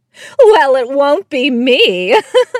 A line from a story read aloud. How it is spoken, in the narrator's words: the customer replied with a laugh